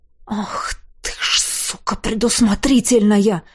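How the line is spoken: Breathed out. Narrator (Russian): выдохнул я

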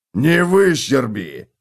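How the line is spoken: Bark. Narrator (Russian): рявкнул Готрек

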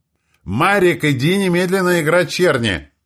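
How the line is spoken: Even louder yelling. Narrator (Russian): Еще громче заорала Роза Петровна

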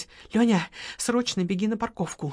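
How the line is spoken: Whispered order. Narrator (Russian): шепотом приказала Лола

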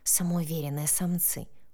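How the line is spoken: Whisper. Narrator (Russian): прошептала

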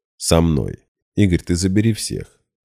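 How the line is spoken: Calm. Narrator (Russian): уже спокойно начал

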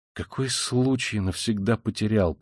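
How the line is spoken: Muttered. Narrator (Russian): пробормотал он

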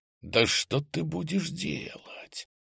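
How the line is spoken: Whisper. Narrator (Russian): Прошептал я

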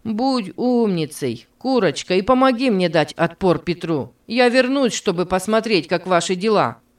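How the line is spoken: Shouting over shoulder. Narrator (Russian): крикнул он через плечо

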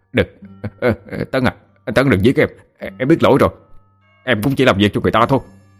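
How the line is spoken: Hurried shout. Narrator (Vietnamese): hắn nhanh miệng hét lên

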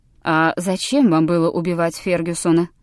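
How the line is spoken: Plain. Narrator (Russian): спросил О'Брайен

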